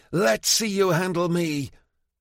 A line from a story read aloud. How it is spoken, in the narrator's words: bellowing